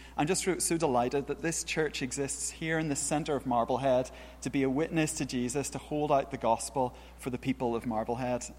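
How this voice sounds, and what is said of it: Northern Irish accent. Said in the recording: “this isn't a Beverley accent, in case you're wondering. I'm from Northern Ireland originally... That's not long enough for me to have lost it yet... British-sounding accents”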